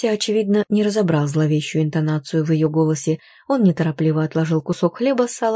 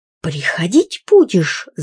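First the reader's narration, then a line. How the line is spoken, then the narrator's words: Sudden interrupting shriek. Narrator (Russian): завизжала вдруг, перебив его Галюнчик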